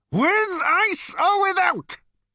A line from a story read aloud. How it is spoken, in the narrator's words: bellowed Number Two